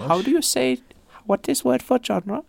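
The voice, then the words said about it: Imitates another person's voice. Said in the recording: “my Jonas impression”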